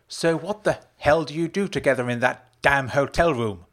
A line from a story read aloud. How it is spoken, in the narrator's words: Rose snapped